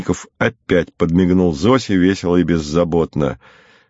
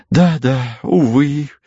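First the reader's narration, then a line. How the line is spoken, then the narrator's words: Sigh. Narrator (Russian): вздохнула сестра Гиацинтова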